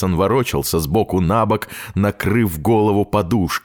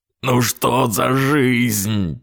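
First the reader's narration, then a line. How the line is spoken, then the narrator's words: Moaning. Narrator (Russian): простонал он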